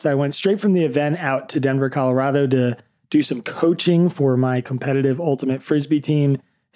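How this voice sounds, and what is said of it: Raspy, nearly lost voice. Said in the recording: “my voice is on a knife's edge of being lost ... the raspiness of 3 or 4 days of talking on stage and shouting on the sidelines”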